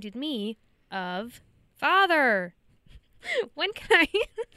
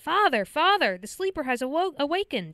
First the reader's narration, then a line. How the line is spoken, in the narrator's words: Kyle wakes up and yells